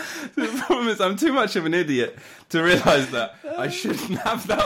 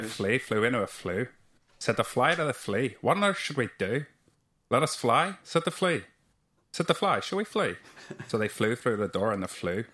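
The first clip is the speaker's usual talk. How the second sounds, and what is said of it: Attempted Northern Irish accent. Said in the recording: “me trying to do a Northern Irish accent. So this is probably really embarrassing.”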